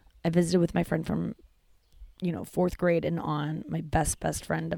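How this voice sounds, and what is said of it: Usual voice. Nothing is said of it.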